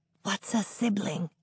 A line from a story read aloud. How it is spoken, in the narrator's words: Adam whispers to Emmett